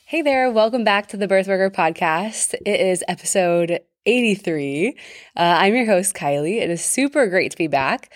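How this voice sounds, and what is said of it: Sick, short-of-breath voice. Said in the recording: “can tell from my voice,... I am just getting over a really long and annoying sickness... you could tell it in my voice, and even still, it's like hard to catch my breath”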